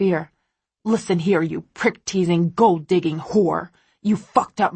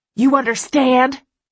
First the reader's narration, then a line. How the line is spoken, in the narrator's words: He shouts